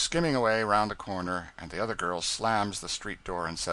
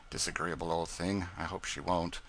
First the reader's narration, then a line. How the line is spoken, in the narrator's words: the little humbug says under her breath